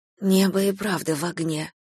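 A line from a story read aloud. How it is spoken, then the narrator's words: Whispered. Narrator (Russian): прошептала я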